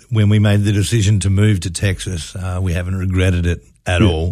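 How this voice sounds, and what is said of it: Australian accent. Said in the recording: “where's that accent from? ... are you an Aussie? ... I'm from Western Australia.”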